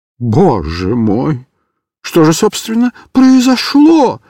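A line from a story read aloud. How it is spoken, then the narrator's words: Frightened question. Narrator (Russian): испуганно спросил Микиш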